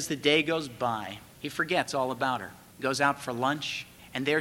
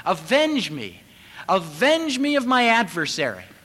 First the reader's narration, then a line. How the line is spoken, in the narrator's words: out in the courtyard, he can hear her still yelling